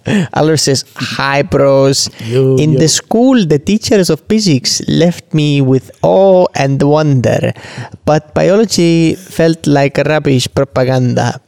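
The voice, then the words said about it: Put-on mock Estonian accent. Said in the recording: “When an Estonian tries to do an Estonian accent, I mean, I don't know what that is. ... I thought that was Pakistani. Pakistani Welsh.”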